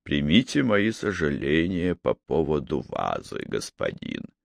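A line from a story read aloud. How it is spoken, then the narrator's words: Soft voice. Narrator (Russian): Голос Анзё звучал мягко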